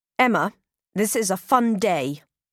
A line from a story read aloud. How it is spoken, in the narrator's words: snaps Cyril